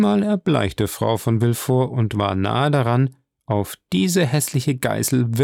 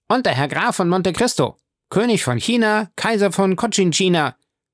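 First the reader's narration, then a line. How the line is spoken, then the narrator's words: Called out. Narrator (German): rief der Knabe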